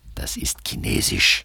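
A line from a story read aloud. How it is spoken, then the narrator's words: Hasty whisper, dragon. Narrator (German): wispert der Drache hastig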